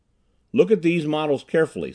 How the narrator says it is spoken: said Clayson

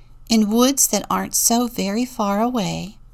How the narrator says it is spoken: began the kindly teacher

